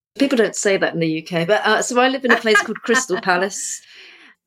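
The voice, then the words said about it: British English accent. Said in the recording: “your accent is very beautiful”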